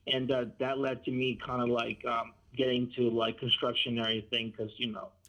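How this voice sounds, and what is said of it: Speaks English with an accent. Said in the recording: “I hear an accent, are you Latino?”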